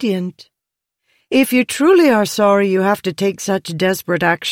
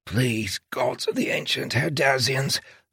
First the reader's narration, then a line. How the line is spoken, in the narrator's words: Lopin whispered